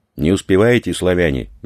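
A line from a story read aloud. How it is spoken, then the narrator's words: Cheerful shout. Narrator (Russian): весело крикнул водитель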